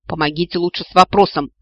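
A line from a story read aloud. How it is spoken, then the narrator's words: Snapped. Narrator (Russian): огрызнулась я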